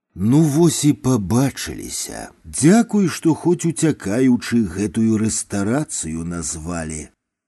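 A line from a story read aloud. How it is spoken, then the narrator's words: Sighing whisper. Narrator (Belarusian): Тугіў уздыхнуў і прашаптаў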